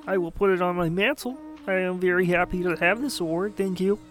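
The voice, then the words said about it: Kermit the Frog character voice. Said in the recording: “I don't know what accent I'm even doing. Like Kermit the Frog? Maybe.”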